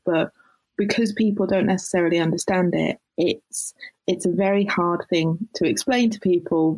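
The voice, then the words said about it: British accent. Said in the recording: “you can tell by ... accent ... that you are in Britain”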